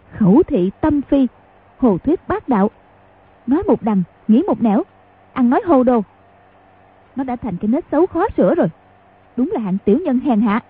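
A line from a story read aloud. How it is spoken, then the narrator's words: Angry voice. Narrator (Vietnamese): Quách Phù tức giận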